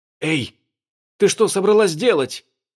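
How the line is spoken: Terrified dog exclamation. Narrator (Russian): в ужасе воскликнул лабрадор

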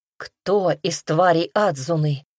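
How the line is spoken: Hoarse rasp. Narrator (Russian): прохрипела Руми

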